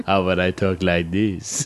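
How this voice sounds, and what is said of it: Put-on sexy voice. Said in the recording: “My sexy voice.”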